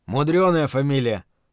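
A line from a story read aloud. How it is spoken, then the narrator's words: Muttered through clenched teeth. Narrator (Russian): ответил тот сквозь зубы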